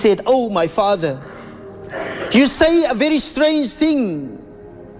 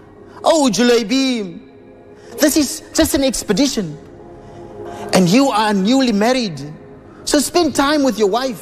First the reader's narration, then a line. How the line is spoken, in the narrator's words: his father-in-law pleaded with him